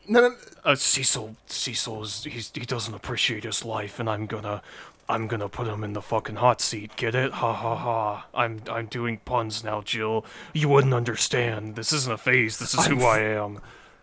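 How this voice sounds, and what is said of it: John Kramer villain character voice. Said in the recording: “It's doing the John Kramer voice. ... Here, I'll do it.”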